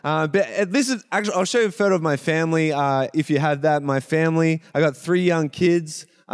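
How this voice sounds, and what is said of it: Australian accent. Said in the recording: “I still have an Australian accent ... I don't even know how to say it like a Canadian”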